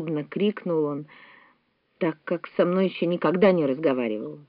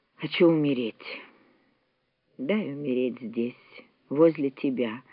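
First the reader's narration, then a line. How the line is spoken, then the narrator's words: Weak voice. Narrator (Russian): добавил он слабым голосом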